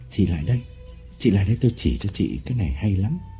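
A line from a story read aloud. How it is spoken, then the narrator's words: Whispering. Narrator (Vietnamese): Lộc đặt ngón tay lên miệng và thì thầm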